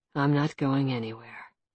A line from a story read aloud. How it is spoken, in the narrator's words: he said softly, silkily